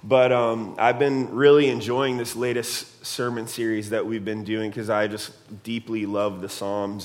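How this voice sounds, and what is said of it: Voice affected by illness. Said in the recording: “apologize for my voice. ... I've been sick for the last couple of days, and so I'm still kind of recovering a little bit.”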